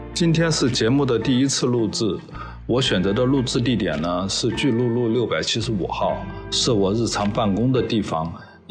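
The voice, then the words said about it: Speaks with a noticeable accent. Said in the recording (Chinese): “听到我声音的时候，想必你们已经做出了自己的判断，那就是方言不是一个适合做主播的人……有点口音可能更容易吸引听众”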